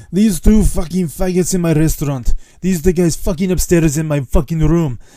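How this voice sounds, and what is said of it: Angry old Greek man accent. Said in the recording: “worst Greek impression of an old Greek guy who's very angry”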